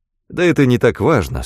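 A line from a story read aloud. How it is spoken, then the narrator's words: Plain. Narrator (Russian): сказал Фрэнк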